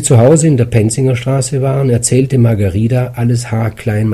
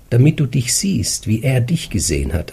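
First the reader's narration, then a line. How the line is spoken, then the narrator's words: Plain. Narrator (German): antwortete sie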